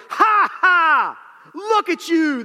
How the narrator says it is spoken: yelled out

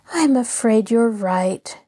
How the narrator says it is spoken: Nancy sighed

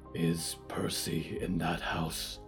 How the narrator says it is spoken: Diggory whispered

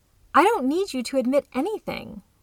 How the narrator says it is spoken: Riley shouted desperately

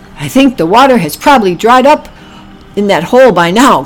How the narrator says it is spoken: grunted Oliver

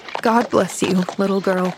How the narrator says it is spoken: he said unsteadily

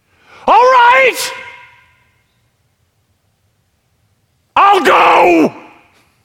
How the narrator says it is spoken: screaming

